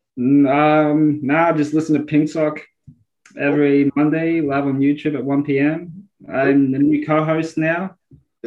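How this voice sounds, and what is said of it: Speaks with a foreign accent. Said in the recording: “you have an accent that like more people want to listen to than me”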